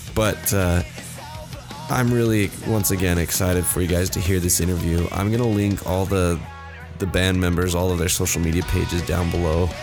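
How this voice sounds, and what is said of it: Sick, unwell-sounding voice. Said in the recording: “as you can tell by my voice, I'm a little bit sick right now”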